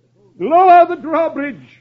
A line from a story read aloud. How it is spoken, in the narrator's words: the sheriff cries